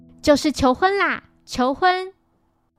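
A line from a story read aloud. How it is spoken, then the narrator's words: Loud exclamation. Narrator (Chinese): 大声说出口了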